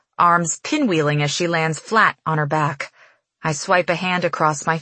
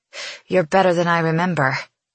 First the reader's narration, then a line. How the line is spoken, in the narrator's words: she pants